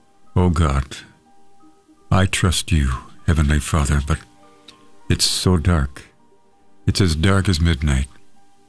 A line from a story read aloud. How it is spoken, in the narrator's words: Thinking his daughter was asleep, the father looked up and said brokenly